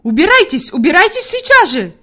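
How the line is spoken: Shouting. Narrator (Russian): закричала Фрейлин Наттермайер

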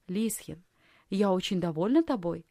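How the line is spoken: Plain. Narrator (Russian): сказала фрейлин Елена

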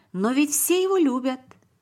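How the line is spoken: Exclamation. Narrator (Russian): воскликнул Давид

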